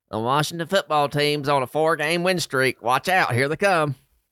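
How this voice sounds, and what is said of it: Imitates another person's voice. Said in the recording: “100% accurate Nate Bivens impersonation”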